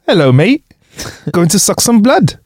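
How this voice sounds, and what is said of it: Put-on Welsh accent. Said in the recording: “leeches have Welsh accents ... Why is that so funny in a Welsh accent? ... I love a Welsh accent”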